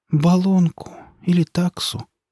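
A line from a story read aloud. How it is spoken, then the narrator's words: Repeated with a sigh. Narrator (Russian): повторила Мария Ивановна и вздохнула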